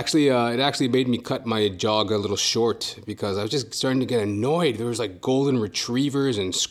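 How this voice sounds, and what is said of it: Usual voice. Nothing is said of it.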